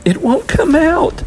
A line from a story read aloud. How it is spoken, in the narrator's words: wailed, gritting her teeth